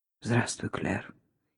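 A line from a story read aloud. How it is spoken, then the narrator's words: Hoarse. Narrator (Russian): хрипло сказал Гарри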